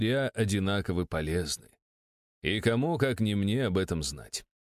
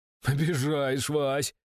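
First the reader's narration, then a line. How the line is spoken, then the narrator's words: Said, then uncertain chuckle. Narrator (Russian): сказал Андрей Никитич, а потом как-то уж больно неуверенно хохотнул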